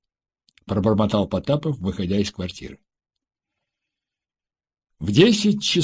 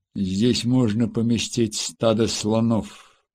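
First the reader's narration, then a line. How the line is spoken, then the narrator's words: Grumbled. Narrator (Russian): проворчал Дронго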